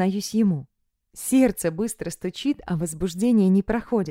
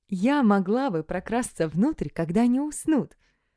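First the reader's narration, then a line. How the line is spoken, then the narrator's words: Laughing while speaking. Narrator (Russian): сквозь смех говорю я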